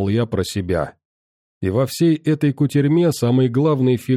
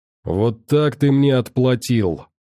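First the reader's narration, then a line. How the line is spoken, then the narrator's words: Growling. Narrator (Russian): рычал он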